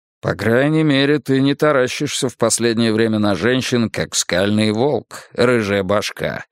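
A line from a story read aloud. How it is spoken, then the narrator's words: Grumble. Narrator (Russian): проворчал Брус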